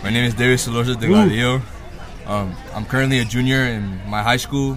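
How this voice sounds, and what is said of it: Deep radio-like voice. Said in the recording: “radio voice, like deep voice right here ... this deep voice. Deep.”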